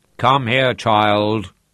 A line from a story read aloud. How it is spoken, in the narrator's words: he boomed